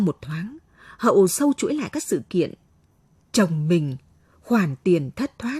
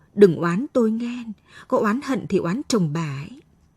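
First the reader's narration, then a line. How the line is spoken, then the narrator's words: Trembling voice. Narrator (Vietnamese): thằng cha giết mướn run rẩy bảo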